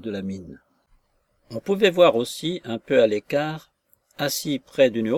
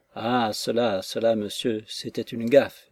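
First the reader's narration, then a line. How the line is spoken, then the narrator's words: Murmured. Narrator (French): murmurait-il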